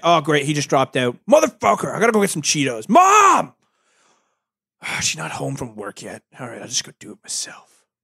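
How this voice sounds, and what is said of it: Stereotypical hardcore gamer voice. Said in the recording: “that voice ... It's just a hardcore gaming voice”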